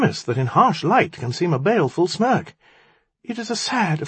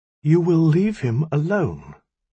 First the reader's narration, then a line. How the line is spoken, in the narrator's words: Ptolemy said, his voice slow and clear